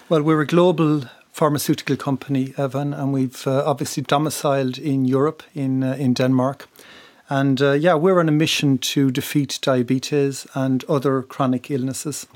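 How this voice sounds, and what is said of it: Irish accent, west of Ireland. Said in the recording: “people will hear from your accent that you originally, in fact, were from Republic of Ireland ... I'm from the west of Ireland, County yeah. Mayo.”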